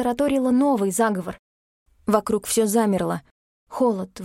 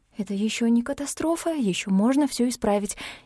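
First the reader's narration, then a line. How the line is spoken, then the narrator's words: Trembling whisper. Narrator (Russian): Дрожащим шепотом сказала я себе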